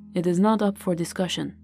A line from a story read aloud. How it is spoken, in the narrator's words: her grandfather replied flatly